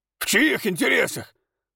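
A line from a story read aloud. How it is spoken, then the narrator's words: Blacksmith's shout. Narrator (Russian): выкрикнул кузнец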